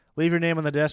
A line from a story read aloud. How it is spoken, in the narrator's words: she said quickly